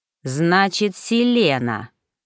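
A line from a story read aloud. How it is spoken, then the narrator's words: King drawling. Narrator (Russian): протянул король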